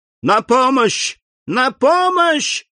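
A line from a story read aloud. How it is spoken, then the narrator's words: Shouting. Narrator (Russian): закричала мадемуазель Дармильи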